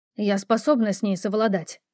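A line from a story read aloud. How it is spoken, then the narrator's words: Sharp reply. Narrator (Russian): резко ответила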